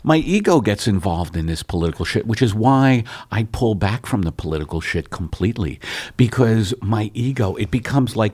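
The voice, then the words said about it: New York accent. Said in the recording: “that New York accent.”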